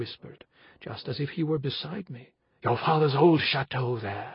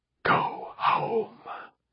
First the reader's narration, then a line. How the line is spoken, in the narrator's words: he whispered